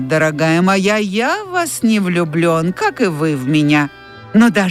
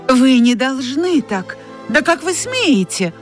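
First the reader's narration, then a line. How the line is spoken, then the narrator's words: Exclaimed. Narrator (Russian): воскликнула она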